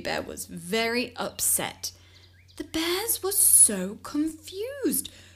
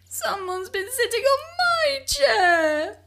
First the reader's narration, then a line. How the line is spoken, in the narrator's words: wailed Baby Bear